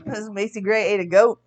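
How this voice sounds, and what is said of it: Imitates another person's voice. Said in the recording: “impressive. I'm impressed by the impersonation there.”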